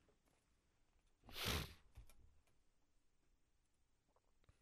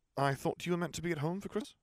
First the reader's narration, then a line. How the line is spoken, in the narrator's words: he asked